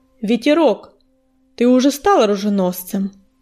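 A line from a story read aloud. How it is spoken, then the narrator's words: Solemn. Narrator (Russian): торжественно начал Огнезвезд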